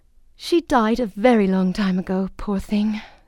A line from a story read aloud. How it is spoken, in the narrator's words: sighed the fairy